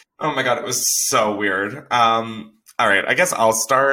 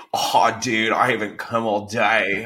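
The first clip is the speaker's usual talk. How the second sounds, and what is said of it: Surfer-dude voice, sounds Australian. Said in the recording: “you give me like surfer ... That sounded so Australian. ... I know it did sound Australian for a sec”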